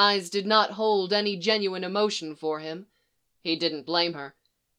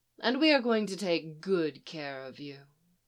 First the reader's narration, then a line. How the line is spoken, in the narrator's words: Lisa purred